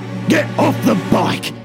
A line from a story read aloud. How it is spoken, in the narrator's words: bellowed